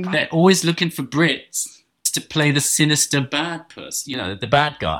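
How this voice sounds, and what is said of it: Posh English accent. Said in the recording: “a really fucking posh English accent ... my posh English voice”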